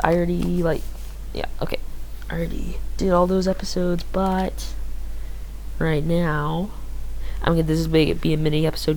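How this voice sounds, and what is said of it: Tired-sounding voice. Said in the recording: “Sorry if I sound a little tired.”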